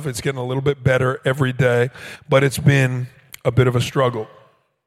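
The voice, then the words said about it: Hoarse, strained voice. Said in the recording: “a little bit of a struggle in my life right now, and that struggle is with my voice. I have some laryngitis”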